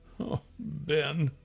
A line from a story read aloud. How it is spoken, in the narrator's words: moaned